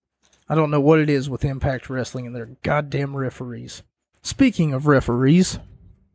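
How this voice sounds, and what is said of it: Strained, failing voice. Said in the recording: “I'm starting to lose my voice ... I'm starting to lose my voice”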